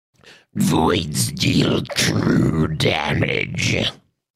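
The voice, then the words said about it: Weird creature-like character voice. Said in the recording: “a really good, like, creature-y sounding Void voice ... a really weird voice”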